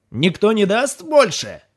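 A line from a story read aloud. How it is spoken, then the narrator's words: Shouted. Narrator (Russian): крикнул Дин Фелберг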